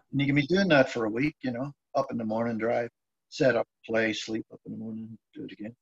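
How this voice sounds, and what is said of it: Northern Irish Belfast accent. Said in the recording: “You said that you grew up in Ireland, but that's not a Wexford accent... No, Belfast way.”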